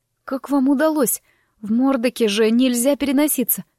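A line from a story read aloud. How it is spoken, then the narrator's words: Wheeze. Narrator (Russian): прохрипела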